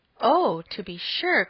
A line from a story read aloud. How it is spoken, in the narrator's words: cried Emma